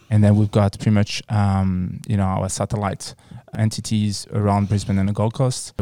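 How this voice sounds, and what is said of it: French accent. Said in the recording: “you've got a beautiful accent, very sexy accent ... I was born and raised in France.”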